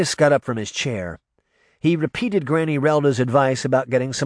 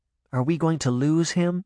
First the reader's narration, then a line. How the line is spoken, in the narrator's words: Daphne whispered